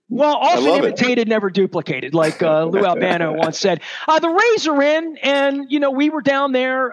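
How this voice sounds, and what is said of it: Baltimore accent. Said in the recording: “Is it my Ballmer accent? ... It's the Ballmer accent”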